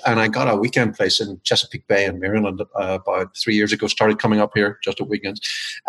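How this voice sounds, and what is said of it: Irish accent. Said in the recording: “my accent has decided not to relocate. I'm originally from Ireland.”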